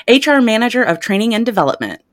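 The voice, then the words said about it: Put-on professional customer service voice. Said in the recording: “I got to get my professional voice on here. ... Get your customer service voice going.”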